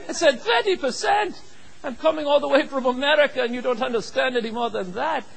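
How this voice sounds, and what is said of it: Minnesota accent. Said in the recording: “My Minnesota accent”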